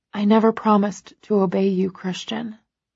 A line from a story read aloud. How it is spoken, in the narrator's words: whisper